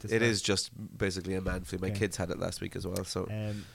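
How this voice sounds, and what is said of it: Sniffly voice with a cold. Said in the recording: “there will be me sniffing ... I've got a little bit of a cold.”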